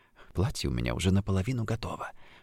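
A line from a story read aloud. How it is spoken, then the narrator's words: Whispered. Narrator (Russian): прошептала она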